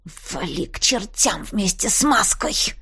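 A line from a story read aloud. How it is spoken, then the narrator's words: Growling. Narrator (Russian): прорычала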